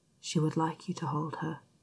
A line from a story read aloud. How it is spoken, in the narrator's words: Xiao Xingchen conspiratorially whisper